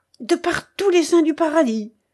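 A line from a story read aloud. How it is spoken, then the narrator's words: Exclaiming. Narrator (French): s'écria de Bracy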